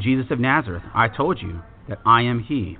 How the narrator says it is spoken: Jesus answered

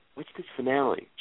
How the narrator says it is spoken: Jared whispered to his wife

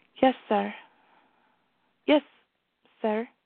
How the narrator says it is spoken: said nervously

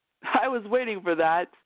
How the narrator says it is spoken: Noel laughed

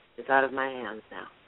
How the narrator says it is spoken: He said to himself quietly

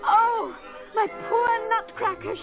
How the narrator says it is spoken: she sobbed

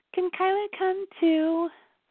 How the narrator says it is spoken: Melissa asked sweetly

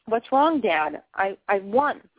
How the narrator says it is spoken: I said, my voice trembling

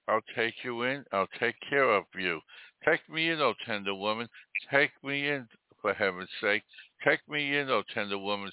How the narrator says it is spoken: sighed the snake

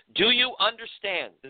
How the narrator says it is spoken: the female officer sternly asked

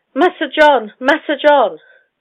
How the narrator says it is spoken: The youngest boy, about 7 years of age, too young to know what these things meant, cried

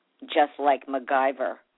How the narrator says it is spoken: said bitterly

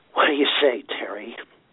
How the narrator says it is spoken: He gasped

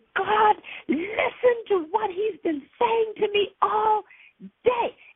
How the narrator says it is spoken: I yelled to my Father

